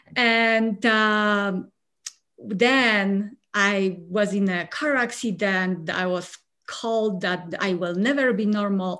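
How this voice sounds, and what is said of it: Polish accent. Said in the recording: “I'm originally from Poland. No, this accent is not from Colorado”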